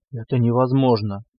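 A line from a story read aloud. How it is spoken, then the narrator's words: Breathless. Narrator (Russian): выдохнул Забал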